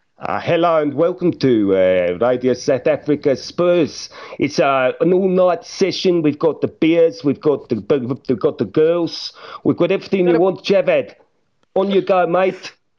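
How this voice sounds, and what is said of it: Put-on Afrikaans accent. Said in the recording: “You're doing the rest of the pod in a Afrikaans accent.”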